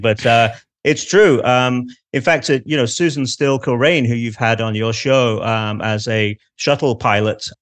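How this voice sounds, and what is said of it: Manchester English accent. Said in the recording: “my Manchester accent”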